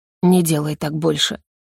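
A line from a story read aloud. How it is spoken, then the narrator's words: Rasped hoarsely. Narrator (Russian): прохрипел он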